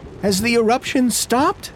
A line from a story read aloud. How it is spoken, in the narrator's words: I cried